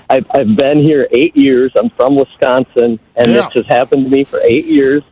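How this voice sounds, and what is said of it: Northern US accent. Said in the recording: “when they hear my northern accent”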